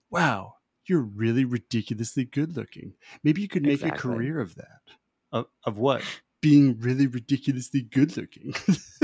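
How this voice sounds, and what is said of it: Imitates another person's voice. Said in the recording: “you do a great impression. The way he does it is just so perfect.”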